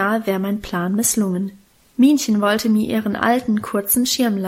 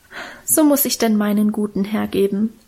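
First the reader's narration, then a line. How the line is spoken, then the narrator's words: Moved sigh. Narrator (German): seufzte und schien selber gerührt von ihrer Opferbereitschaft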